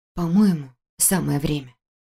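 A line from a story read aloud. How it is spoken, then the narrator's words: Whisper. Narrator (Russian): прошептала я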